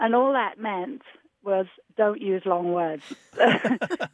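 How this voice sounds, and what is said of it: Usual voice. Nothing is said of it.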